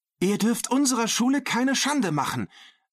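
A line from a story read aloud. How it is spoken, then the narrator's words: Called out. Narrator (German): rief Maria Dolores jetzt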